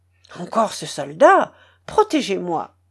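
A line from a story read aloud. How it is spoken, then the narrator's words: Frightened female cry. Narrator (French): s'écria-t-elle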